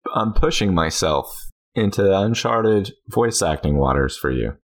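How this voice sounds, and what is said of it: Usual voice. Nothing is said of it.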